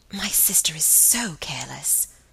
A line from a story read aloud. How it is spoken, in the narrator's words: whispered Margaret